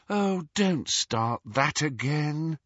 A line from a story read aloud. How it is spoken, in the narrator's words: sighed Hermione